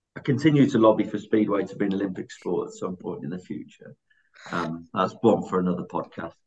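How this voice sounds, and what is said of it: West Bromwich, West Midlands accent. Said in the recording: “you might tell the link to West Brom from the accent”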